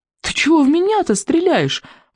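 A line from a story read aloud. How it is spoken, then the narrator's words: Howling while running. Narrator (Russian): взвыл Икинг на бегу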